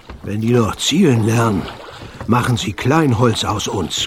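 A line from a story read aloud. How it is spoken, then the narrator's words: Heavy man panting. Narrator (German): keuchte der dicke Sven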